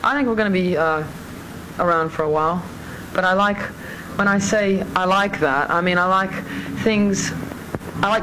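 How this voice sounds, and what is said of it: American with slight British accent. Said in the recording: “you can hear a bit of her accent there, too ... she's an American with a little bit of a Brit ... Mid-Atlantic”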